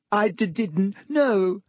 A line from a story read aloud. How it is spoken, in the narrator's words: sobbed Ginny